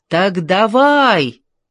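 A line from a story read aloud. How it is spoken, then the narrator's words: Shouted in chorus. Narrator (Russian): крикнули хором Джордж, Ани и ее мама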